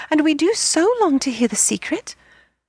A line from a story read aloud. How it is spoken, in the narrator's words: the children cried again